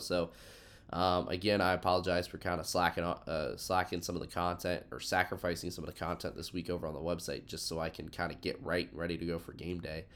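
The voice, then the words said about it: Congested, sick-sounding voice. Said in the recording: “I've been feeling just a little under the weather, if you couldn't tell by my voice. I had some weird head cold”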